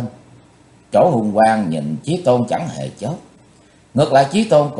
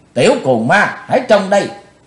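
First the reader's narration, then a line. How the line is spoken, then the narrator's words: Shouted challenge. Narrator (Vietnamese): Quát dứt thì Bạch Phát Ma Cơ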